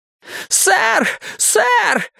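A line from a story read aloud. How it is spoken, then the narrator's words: Shout from doorway. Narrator (Russian): это кричал прямо из дверей Лоуренс Эванс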